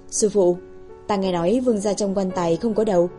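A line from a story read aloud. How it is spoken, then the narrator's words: Quiet voice. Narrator (Vietnamese): tiểu đồ đệ nhỏ giọng nói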